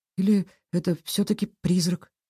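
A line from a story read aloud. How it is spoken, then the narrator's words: Quiet mutter. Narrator (Russian): тихо пробормотала Кира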